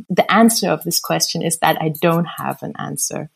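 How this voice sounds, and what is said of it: Mixed, hard-to-place English accent. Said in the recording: “I have this weird American accent that is uh, not German, but it's also not American and it's not British”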